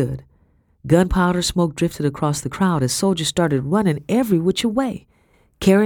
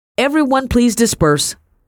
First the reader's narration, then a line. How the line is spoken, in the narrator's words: shouted a broad-shouldered man